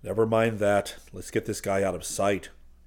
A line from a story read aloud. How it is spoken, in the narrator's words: Geronimo hissed